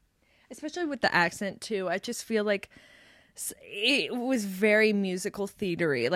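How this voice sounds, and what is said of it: Usual voice. Nothing is said of it.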